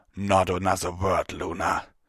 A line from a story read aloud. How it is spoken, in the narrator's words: Tirado growled